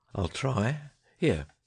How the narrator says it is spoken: he sighed

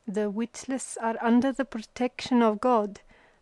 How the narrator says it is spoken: stammered a flat-cheeked Uzbek in broken Hindi

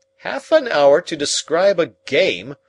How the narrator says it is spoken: I cried indignantly

